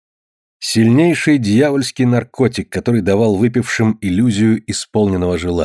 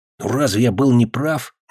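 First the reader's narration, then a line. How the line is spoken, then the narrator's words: Sudden whisper. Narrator (Russian): неожиданно прошептал он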